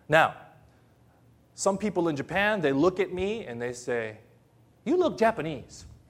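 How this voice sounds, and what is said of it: American-sounding accent. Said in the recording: “they hear me on my accent. They say, you don't sound Filipino. You sound American.”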